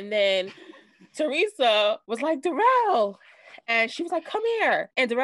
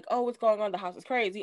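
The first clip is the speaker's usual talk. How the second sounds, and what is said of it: Imitated British accent. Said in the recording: “you know, her British accent.”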